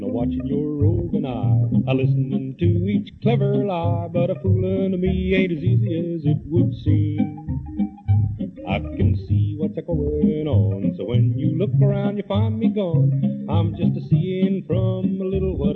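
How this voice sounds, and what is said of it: Singing, imitates another person's voice. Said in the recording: “Tex Ritter imitating Smiley Burnett, imitating Tex Ritter singing”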